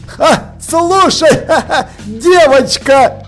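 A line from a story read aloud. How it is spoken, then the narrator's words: Laughing. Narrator (Russian): продолжая смеяться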